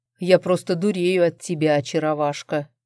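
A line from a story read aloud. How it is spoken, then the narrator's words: Growled. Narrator (Russian): прорычал Арман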